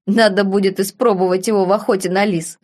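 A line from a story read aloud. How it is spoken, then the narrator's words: Chuckle. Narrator (Russian): хохотнул барон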